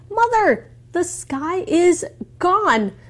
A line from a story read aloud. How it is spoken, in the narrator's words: A child cried